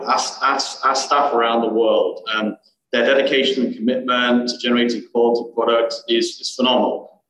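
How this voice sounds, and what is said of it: British Birmingham accent. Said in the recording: “as you can tell from my accent, I'm from Far East Texas, like 4,700 miles far east. From the UK originally, born in Birmingham, UK”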